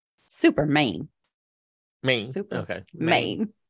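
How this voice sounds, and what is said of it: Weak impression of another person's voice. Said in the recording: “Your impersonation could be a little stronger there. I've seen you do better impersonations.”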